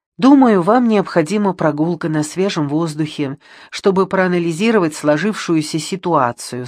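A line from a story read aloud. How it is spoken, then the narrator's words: Plain. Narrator (Russian): сказал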